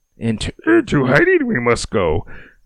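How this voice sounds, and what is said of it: Bad Yoda impression. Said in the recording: “sorry for the bad impression”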